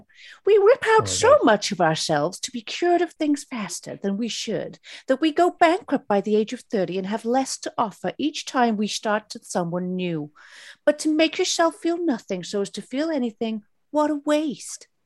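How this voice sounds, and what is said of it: Imitates another person's voice. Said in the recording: “in the style of Tilda Swinton doing an art debate in Wes Anderson's The French Dispatch ... that was an exceptional impression of Tilda in The French Dispatch”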